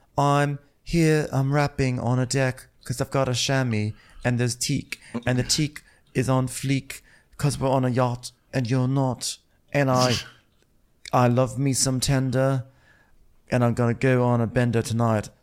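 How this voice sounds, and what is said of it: Put-on Chinese accent, rapping. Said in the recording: “In her Chinese accent. ... was that a totally offensive Chinese accent?”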